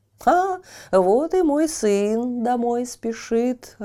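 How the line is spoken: Old woman's joyful exclamation. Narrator (Russian): радостно воскликнула старуха

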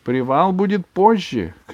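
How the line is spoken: Shouted. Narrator (Russian): крикнула фрау Майер

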